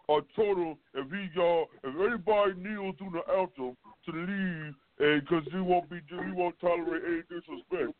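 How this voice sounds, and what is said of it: Imitates another person's voice. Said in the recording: “my weak ass impersonation of him”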